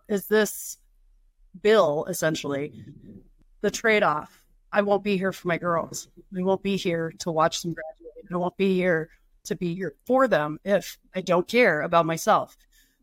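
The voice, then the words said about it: Emotional, choked-up speech. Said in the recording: “I'm going to get emotional.”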